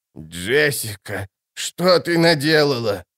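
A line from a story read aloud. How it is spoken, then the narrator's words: Old woman moaning. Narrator (Russian): простонала старая правдовидица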